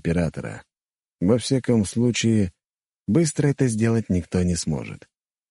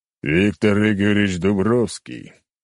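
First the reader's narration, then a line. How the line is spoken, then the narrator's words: Loud echoing bass. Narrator (Russian): громко сказал Кречет, отчего по комнате эхом разлился его бас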